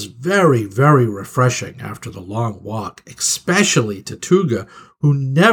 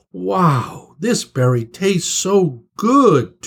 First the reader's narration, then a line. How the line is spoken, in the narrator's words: Tuga cried